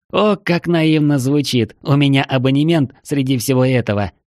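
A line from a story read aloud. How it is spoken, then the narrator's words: Almost laughing. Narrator (Russian): едва не засмеялся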